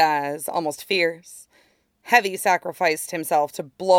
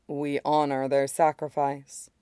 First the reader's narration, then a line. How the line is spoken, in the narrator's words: he says quietly